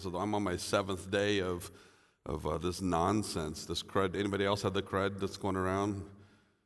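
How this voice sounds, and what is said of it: Sick-sounding voice. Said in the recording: “You might be able to tell from my voice that I'm not doing so well this morning”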